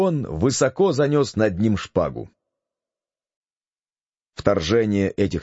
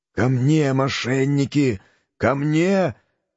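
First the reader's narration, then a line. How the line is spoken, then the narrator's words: Weak, hoarse. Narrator (Russian): прохрипел он слабым голосом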